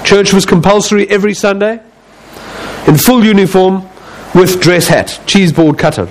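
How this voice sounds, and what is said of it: South African accent. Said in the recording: “Yes, it is a South African accent.”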